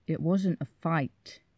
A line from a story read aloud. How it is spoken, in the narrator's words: says through his teeth